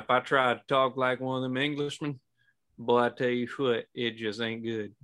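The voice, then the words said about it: Southern US accent. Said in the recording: “I can pull a southerner accent because it's in my blood”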